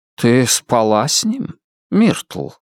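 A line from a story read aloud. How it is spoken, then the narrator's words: Soft question. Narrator (Russian): спросил мягко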